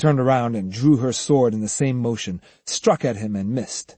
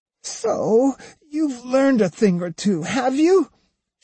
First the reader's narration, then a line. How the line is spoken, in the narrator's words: she moaned, her face half buried in the grass